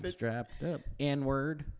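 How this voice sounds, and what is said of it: Singing with a slight put-on accent. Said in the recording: “you're doing it with like a little accent... You're adding an accent.”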